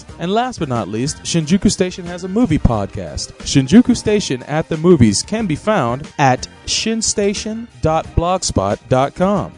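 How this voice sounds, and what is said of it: Game show announcer voice. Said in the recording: “It's like Mr. Announcer. ... my best Don Newkirk impression ... possessed by the soul of a dead game announcer”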